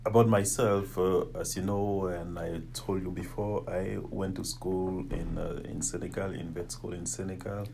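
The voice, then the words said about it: French accent. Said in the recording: “I have my French accent”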